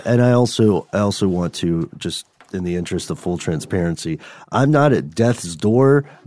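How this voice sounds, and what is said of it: Sick, deep gravelly voice. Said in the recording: “I am darn sure on like the sub-basement of sickness right now. So that's why my voice sounds a little bad. If you heard any mucusy noises ... It's just extra deep ... It's nice and gravelly.”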